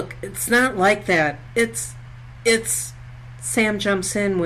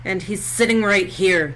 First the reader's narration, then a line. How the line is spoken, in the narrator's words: snaps